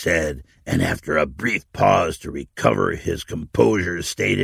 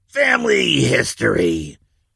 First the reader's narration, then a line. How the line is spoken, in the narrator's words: the old man growled dismissively